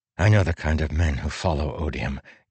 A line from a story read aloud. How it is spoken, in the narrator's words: Kaladin said softly